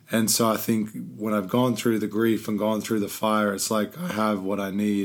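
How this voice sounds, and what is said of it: Hoarse, worn-out voice. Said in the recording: “My voice is just shot.”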